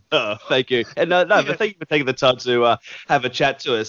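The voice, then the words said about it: Australian accent. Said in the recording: “Love that Australian accent, man.”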